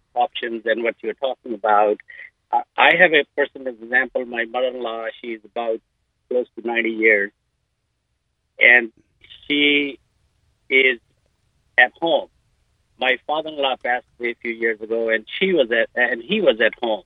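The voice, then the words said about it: Indian accent. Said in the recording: “it sounds like you're from India ... your accent tells you a way that you're not born in Waco”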